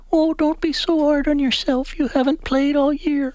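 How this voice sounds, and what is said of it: Imitates his mother's voice. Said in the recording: “That's a good impression.”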